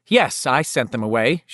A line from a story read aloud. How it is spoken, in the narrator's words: she said, and found that her voice was strong enough and steady enough